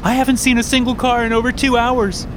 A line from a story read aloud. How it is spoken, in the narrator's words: the middle-aged woman says, almost screaming